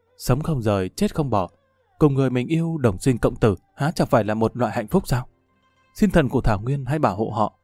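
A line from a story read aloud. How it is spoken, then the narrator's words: Soft murmur. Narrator (Vietnamese): lẩm bẩm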